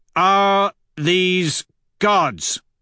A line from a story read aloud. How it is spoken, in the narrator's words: I roar through my helmet